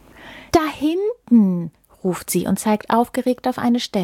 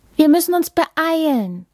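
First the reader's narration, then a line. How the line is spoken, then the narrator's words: Hectic hurried call. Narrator (German): ruft Inna der Möwe hektisch zu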